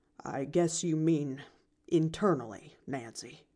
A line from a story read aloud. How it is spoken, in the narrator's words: he said dryly